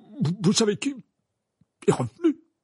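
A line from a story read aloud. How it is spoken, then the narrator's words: Stammered, wide-eyed. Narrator (French): balbutia-t-il les yeux écarquillés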